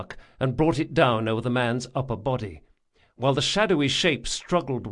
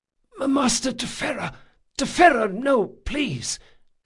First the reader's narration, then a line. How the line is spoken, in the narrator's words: the man whispered